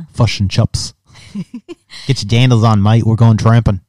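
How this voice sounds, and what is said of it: Poor put-on New Zealand accent. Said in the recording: “I love the New Zealand accent ... It doesn't sound as good when you do it ... No, I'm terrible.”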